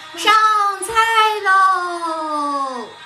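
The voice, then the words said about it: Shouting loudly. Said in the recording (Chinese): “别喊了，别喊了”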